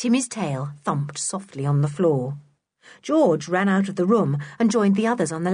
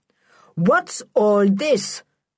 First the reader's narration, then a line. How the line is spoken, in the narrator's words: thundered Sooty's stepfather